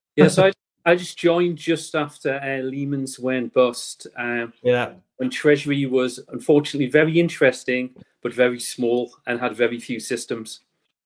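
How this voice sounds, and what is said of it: Northeast England accent. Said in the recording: “you can probably work out from ... accent today, but you're up from the northeast of England”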